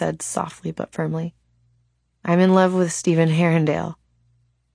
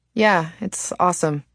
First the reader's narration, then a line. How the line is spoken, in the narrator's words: she said bitterly enough that even the silent brother noticed her tone